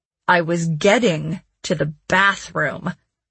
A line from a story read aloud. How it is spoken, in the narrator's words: Jesse said through clenched teeth